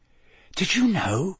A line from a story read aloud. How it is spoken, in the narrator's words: he whispered